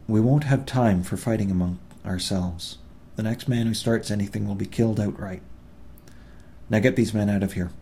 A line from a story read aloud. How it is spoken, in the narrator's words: he said calmly, but loud enough for all to hear